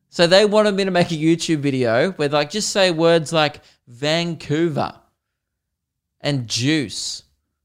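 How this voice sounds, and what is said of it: Australian accent. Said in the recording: “lazy Australians like myself who don't speak correctly ... I'm fascinated with your accent ... Australian accents”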